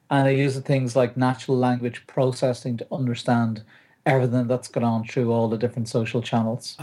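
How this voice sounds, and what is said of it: Irish accent. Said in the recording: “It's the Irish accent, isn't it?”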